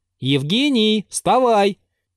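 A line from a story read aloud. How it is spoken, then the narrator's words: Loud. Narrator (Russian): прибавил он громко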